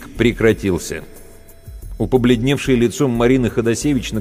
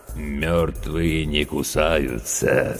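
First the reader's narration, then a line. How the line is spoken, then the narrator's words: Creaky, smirking voice. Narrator (Russian): скрипучим голосом проговорил ухмыляющийся Серега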